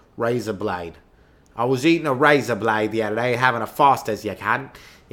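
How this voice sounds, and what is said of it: Poor put-on Australian accent. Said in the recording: “That's a horrible. I got to warm up for my accents.”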